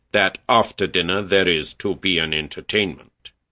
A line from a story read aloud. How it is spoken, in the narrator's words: the captain said gloomily